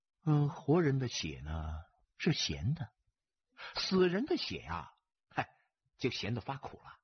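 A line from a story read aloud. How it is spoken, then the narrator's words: Calm, indifferent. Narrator (Chinese): 他神色不变，淡淡的说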